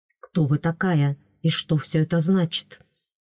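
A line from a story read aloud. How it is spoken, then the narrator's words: Quick whisper. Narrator (Russian): быстро шепнул мастер Рейс мне на ухо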